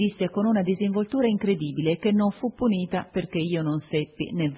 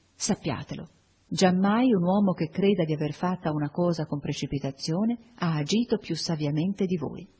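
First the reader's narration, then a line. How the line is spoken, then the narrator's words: Low voice. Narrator (Italian): a bassa voce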